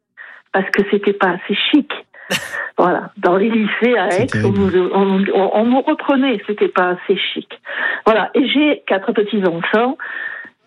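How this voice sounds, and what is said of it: Southern French Vaucluse accent. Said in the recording (French): “j'ai l'accent du Vaucluse”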